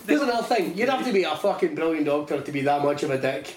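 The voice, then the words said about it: Put-on American accent. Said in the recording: “it's a bold choice, the accent ... Can you do the one from House?”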